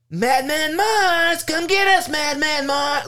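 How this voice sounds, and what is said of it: Yelling. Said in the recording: “how he's yelling.”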